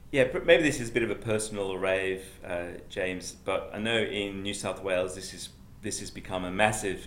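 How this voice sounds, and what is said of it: English accent. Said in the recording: “my Pommy accent”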